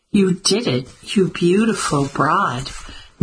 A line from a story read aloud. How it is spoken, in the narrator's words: Mimi exclaimed